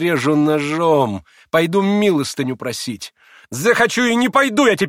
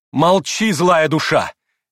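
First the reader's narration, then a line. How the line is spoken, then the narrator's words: Furious shout. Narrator (Russian): яростно крикнула ему Грушенька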